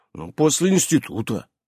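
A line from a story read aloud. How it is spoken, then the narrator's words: Grumbled mutter. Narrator (Russian): буркнул Иннокентий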